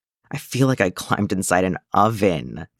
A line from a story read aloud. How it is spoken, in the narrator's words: Tim groans